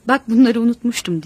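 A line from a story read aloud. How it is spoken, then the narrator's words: Angry. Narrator (Turkish): diyerek öfkeyle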